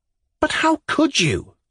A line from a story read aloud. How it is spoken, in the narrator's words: I cried, flaring up